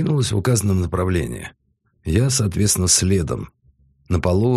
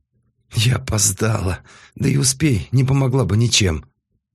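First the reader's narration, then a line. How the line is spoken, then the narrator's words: Resigned sigh. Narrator (Russian): проговорила Ким и обреченно вздохнула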